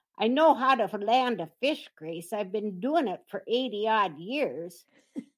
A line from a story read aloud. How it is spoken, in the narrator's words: Rose set her jaw, but managed to growl